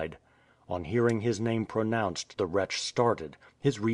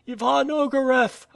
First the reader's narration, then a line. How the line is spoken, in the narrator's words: again cried Nadia